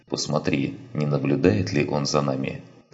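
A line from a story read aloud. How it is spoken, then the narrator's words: Whisper. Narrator (Russian): прошептал Андерсон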